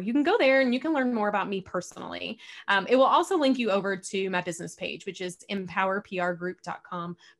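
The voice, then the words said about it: Southern American drawl. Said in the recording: “I realize I have a, a, Southern drawl”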